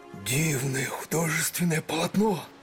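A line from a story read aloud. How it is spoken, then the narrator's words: Whispered shout. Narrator (Russian): шепотом закричал Летика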